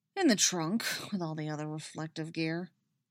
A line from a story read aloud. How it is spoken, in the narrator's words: he grumbles